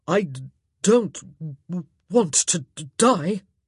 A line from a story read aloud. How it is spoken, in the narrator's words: he said, too exhausted in mind and body to even care that he'd stammered